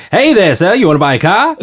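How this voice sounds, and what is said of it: Put-on posh transatlantic 1940s movie accent. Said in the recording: “doing that transatlantic voice for my guy ... super posh British, right? ... it's like any movie from the 40s ... That's perfect ... the slightly like northeastern”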